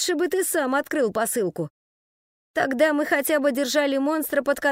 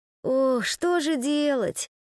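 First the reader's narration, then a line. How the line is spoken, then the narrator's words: Moaning. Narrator (Russian): простонал он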